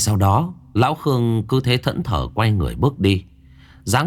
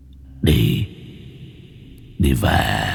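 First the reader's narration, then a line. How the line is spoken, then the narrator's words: Hoarse voice. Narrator (Vietnamese): Giọng nói khàn khàn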